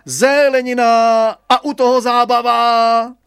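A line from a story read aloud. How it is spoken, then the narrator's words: Hawker-style shouting. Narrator (Czech): vykřikoval trhovecky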